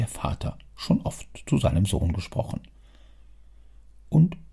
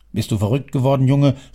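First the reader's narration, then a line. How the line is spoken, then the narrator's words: Old man exclaiming. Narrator (German): rief der Alte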